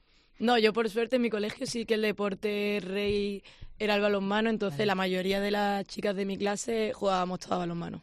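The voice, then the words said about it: Málaga Andalusian Spanish accent. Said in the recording (Spanish): “De Málaga. ... Málaga, ya hacíamos ese acento.”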